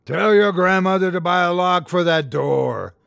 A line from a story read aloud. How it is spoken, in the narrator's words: roared Mulock, relishing the freedom of his true form